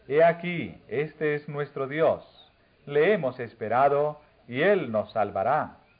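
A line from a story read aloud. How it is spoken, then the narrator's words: Exclamation. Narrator (Spanish): Si habrían exclamado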